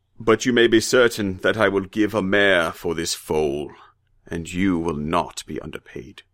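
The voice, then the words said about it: Dignified, deep put-on character voice. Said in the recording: “here I have to do another stupid accent ... a horrible, horrible impression ... a very dignified voice for a slave ... he's got sort of a Charlton Heston thing going on”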